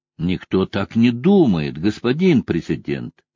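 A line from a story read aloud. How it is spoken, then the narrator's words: Plain. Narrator (Russian): сказал генерал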